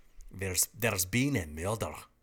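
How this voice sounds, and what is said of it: Put-on Scottish accent. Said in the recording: “you can say in the Scottish accent that sounds the most Scottish ... Don't judge my accent. I think it's pretty good.”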